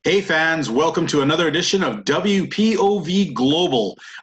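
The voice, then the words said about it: Hyped-up radio announcer voice. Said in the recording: “I've got the radio voice on, and I'm all hyped up.”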